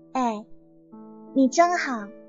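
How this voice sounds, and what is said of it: Sweet, coy girlish voice. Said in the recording (Chinese): “用娇滴滴的声音说”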